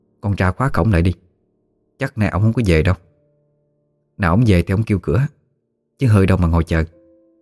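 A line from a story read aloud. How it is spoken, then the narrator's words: Soft. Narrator (Vietnamese): bà khẽ nói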